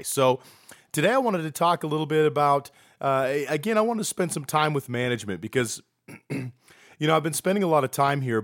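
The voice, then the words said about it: Sick, slightly off-sounding voice. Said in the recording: “feeling a little bit under the weather today ... If my voice sounds a little funny, that is why.”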